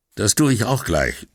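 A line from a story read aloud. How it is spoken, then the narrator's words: Plain. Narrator (German): sagte Brunetti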